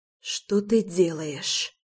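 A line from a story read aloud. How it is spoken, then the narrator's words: Wheezing. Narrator (Russian): просипела я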